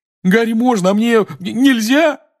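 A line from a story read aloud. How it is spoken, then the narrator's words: Wailing. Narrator (Russian): взвыл Рон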